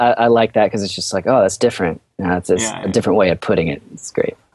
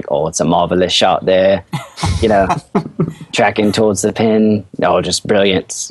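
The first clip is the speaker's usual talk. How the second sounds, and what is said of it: Put-on British announcer accent. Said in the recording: “the British announcers ... my accent is terrible ... It's actually all right. Yeah, I was going to say it's much better.”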